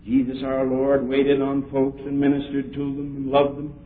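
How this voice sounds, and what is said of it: Dutch accent in English. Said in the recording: “my Dutch accent”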